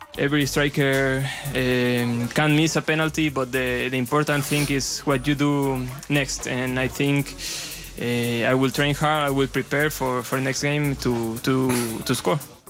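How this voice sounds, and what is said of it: Spanish-accented English. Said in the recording (Dutch): “een beetje Nadal-achtig ... het is wel een Spaans accent”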